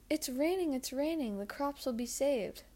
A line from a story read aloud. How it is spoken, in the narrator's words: cried and leapt with joy